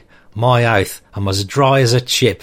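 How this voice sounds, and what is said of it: Put-on Australian accent. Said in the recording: “I hope my Australian accent passes muster, but if not, then I hope it's at least giving you a good giggle”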